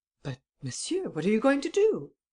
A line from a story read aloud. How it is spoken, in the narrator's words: Devanne exclaimed anxiously